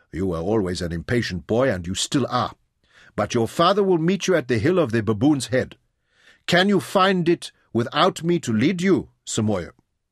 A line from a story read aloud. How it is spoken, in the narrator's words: He mocked Jim lightly